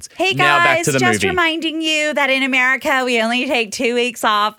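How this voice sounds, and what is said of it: Poor imitation of an American accent. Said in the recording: “was that a really bad accent? ... That was like an American accent.”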